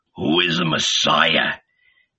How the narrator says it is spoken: murmured

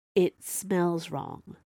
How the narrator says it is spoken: Viola said in a low voice so only the professor could hear her

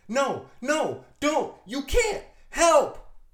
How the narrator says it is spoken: She screams

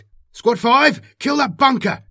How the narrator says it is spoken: he shouted over his Vox

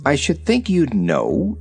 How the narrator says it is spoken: said the little girl gravely

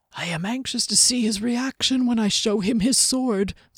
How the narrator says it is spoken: the old man chuckled softly to himself

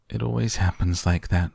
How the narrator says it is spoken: sighed Mr

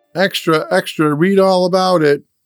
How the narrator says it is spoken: Jack called out

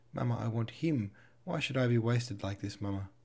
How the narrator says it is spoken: Her voice broke, tears gushed from her eyes

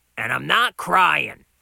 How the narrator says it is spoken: added loudly

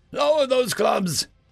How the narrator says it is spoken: Wex yelled at the men behind him

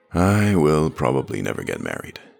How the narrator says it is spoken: sighed

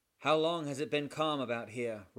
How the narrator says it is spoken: roared the captain of the Java

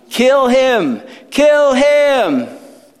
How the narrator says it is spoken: the crowd followed behind, shouting

